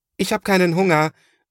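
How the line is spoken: Parting call. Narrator (German): ruft er noch

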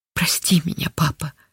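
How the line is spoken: Tearful whisper. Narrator (Russian): шептала Линда

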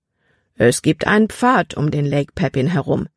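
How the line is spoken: Plain man's answer. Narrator (German): antwortete der Mann

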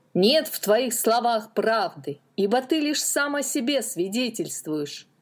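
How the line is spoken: Shouting crowd. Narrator (Russian): кричали они

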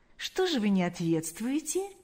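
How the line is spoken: Soft question. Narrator (Russian): мягко спросил Паисий

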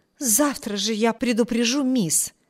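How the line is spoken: Exclaiming. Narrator (Russian): воскликнула Энн

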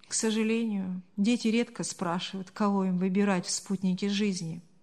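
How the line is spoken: Sighed, father. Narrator (Russian): вздохнул отец

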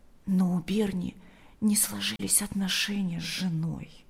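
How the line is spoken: Quiet addition. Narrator (Russian): добавила она тихо

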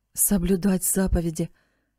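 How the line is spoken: Sad mutter. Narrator (Russian): печально пробормотал он себе под нос

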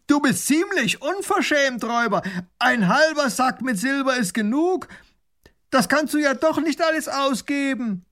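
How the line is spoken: Calling across through cupped hands. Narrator (German): Baron von Raffigny legt die Hände als Trichter an den Mund und ruft hinüber

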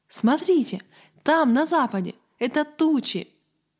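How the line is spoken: Exclamation. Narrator (Russian): Авари Гарретт воскликнул

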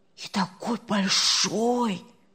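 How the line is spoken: Whispering from across bed. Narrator (Russian): зашептали с другой стороны кровати

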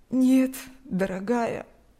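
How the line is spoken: Sad elderly woman. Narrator (Russian): грустно улыбнулась пожилая женщина

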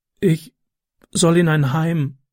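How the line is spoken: Excited stammer. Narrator (German): stotterte er aufgeregt

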